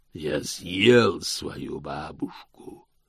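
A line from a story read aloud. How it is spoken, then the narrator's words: Growl from above in darkness. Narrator (Russian): прорычал голос сверху из темноты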